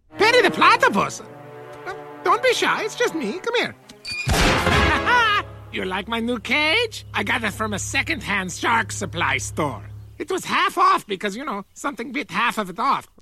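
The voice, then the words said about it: Caricatured German accent, Dr. Doofenshmirtz. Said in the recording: “Dr. Heinz Doofenshmirtz ... he speaks with a caricature of a German accent”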